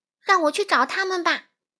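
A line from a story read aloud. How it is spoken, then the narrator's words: Energized, loud. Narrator (Chinese): 夏绿蒂一下子振作起来，他大声说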